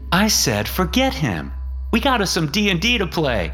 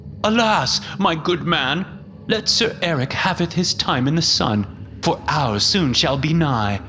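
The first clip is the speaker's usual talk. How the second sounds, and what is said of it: Terrible put-on British accent. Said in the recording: “spouts off a terrible British accent”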